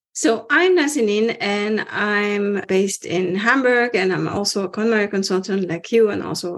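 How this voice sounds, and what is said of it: Non-German foreign accent in English. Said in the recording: “I can tell from your accent, you're not German.”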